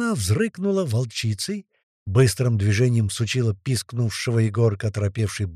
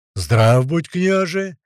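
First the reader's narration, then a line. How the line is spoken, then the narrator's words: Deep booming voices in turn. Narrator (Russian): По очереди прогудели и волк с патриархом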